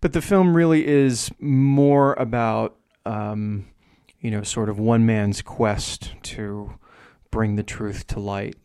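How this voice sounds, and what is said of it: Strong New Jersey accent. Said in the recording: “my New Jersey accent is really strong”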